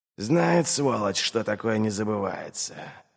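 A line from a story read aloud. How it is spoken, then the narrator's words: Sighing. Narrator (Russian): вздохнул он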